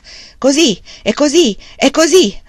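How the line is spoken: Shout. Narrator (Italian): gridò

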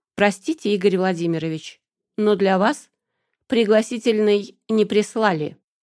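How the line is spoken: Gloating, very calm. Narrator (Russian): вдоволь позлорадствовала и более чем спокойно ответила

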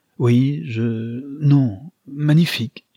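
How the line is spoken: Stammering. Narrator (French): bégaya-t-il

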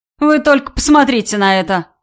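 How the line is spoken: Speaking through laughter. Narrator (Russian): сквозь смех произнес Виталий

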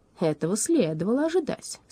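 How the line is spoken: Calm statement. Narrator (Russian): спокойно заявила Шарлотта

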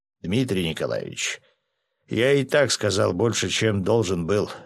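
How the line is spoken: Gloomy remark. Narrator (Russian): мрачно заметил полковник

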